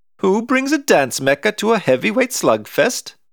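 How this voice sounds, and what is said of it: Girl's voice, Scandinavian accent. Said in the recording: “By the scandy accent”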